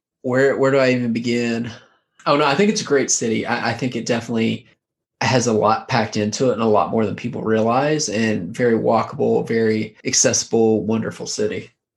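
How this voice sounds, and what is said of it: Boston accent. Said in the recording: “So I lived in Boston. Clearly my accent gives it away.”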